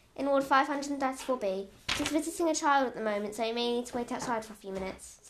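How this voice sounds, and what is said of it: Posh-sounding voice. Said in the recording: “said the nurse in a posh voice”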